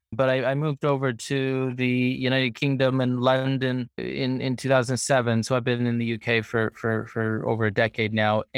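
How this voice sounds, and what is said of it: Canadian accent. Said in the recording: “As you probably can hear from my accent, I, I hail from Toronto, Canada”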